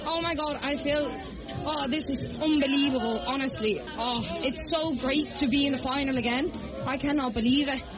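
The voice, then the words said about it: Dublin Irish accent. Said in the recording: “you have a bit of a Dublin accent ... a bit of a Crumlin accent ... you picked up a Dublin accent”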